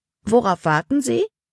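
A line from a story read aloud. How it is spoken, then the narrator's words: Plain. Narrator (German): fragte Jonathan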